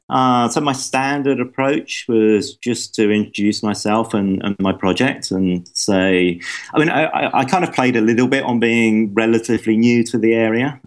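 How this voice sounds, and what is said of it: Charming non-local accent. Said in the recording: “you have such a charming accent”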